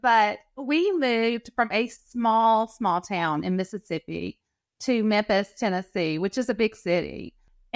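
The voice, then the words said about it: Southern American accent. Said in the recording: “You can tell by the accent. I heard that you speak Southern.”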